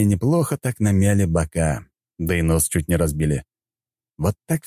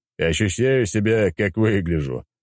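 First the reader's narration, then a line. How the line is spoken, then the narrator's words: Chuckling. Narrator (Russian): хохотнул я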